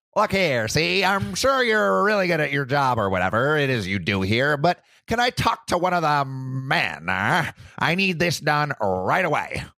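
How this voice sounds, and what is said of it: Put-on 1920s-style accent. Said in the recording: “I'm gonna give him like a 1920s accent”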